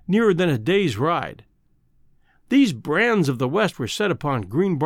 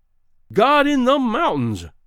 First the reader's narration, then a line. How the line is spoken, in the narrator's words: cried Greenbrier